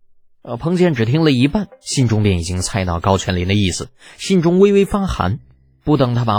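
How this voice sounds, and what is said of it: Usual voice. Nothing is said of it.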